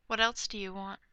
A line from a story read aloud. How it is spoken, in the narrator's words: Bruce asks quietly